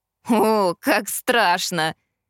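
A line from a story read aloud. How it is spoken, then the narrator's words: Laughing reply. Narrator (Russian): рассмеялся он в ответ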